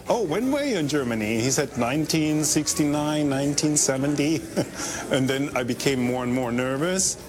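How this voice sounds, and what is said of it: German accent. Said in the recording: “I hear an accent. Where is your accent for? I said, from Germany.”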